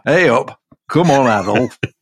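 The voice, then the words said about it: Put-on Yorkshire accent. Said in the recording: “Please do the whole thing in that accent. Do the rest of it in that accent.”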